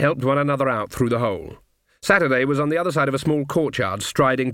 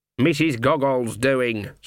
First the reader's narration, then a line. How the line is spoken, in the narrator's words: said Granny Weatherwax grimly